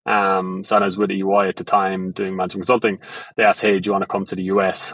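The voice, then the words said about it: Thick Irish accent. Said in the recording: “my Irish accent. It's very thick”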